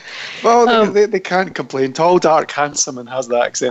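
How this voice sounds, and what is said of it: Scottish accent. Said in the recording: “I love that accent of yours ... everybody does love my Scottish accent”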